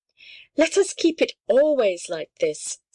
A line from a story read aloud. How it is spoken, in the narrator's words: said the littlest one